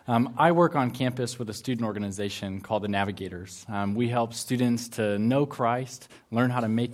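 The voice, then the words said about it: American English accent. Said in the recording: “Sorry for my accent. I'm from the extreme southern part of Canada, also known as the United States of America.”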